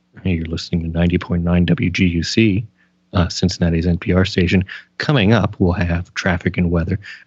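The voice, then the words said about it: Calm NPR radio announcer voice. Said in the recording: “my impression of NPR announcers ... a classical station, so it was very calm”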